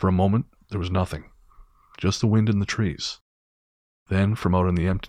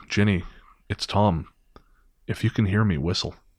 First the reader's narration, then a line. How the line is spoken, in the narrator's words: he broke the silence first, whispering